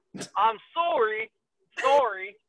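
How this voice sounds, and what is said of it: Put-on Canadian accent. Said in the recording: “gotta get that Canadian accent.”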